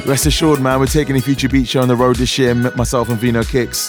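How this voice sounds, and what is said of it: Tired, rusty voice. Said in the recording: “I'm so tired. You can probably tell my voice is still a bit rusty”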